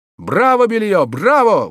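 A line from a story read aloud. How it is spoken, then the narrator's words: Crowd exclaiming in unison. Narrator (Russian): воскликнули единогласно все присутствующие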